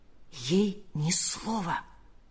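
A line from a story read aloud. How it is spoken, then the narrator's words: Whisper. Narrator (Russian): прошептал он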